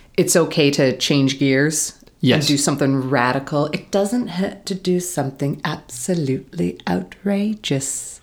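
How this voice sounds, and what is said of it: Bad impression of another person's voice. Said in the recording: “my bad impression of a good impression of David Bowie from Flight of the Conchords ... I thought that was Michael Caine”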